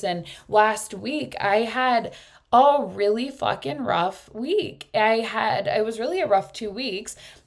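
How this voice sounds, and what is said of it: Hoarse, strained voice. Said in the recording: “you can hear my voice. I lost my voice.”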